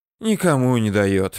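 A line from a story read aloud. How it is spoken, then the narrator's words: Sighing. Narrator (Russian): вновь вздохнул Алексей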